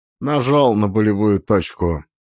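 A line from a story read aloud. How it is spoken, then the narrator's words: Answered dryly. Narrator (Russian): ответил сухо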